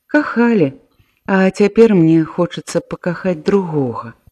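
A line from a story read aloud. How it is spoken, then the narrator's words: Sad smile. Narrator (Belarusian): Таццяна сумна усміхнулася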